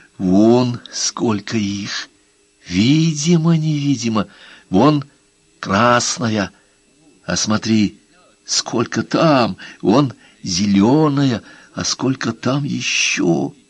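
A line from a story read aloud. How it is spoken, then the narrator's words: Whisper. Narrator (Russian): Он прошептал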